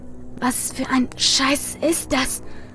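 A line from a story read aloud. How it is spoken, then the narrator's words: Hoarse whisper. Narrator (German): flüsterte Andi mit heiserer Stimme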